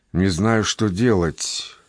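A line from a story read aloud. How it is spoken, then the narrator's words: Mutter. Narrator (Russian): пробормотала она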